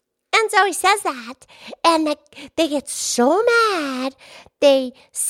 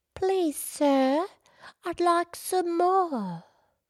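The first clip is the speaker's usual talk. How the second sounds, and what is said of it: Attempted English accent. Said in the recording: “is that your English accent? ... That's my attempt.”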